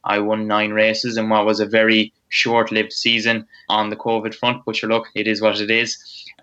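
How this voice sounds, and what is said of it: Strong Roscommon Irish accent. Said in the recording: “a lad from Roscommon, strong Roscommon accent”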